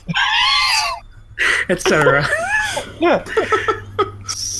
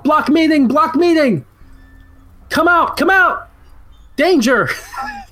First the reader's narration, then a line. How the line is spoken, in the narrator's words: Barkalow's yelling out